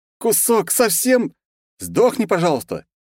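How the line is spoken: Desperate yell. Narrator (Russian): уже в некотором отчаянии заорал

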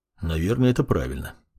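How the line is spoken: Displeased mutter. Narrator (Russian): недовольно буркнул маг

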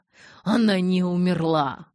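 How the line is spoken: Growling. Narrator (Russian): рычал он

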